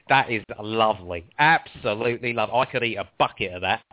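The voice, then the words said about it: Imitates another person's voice. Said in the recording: “my Gregg Wallace impression ... in Gregg Wallace's voice”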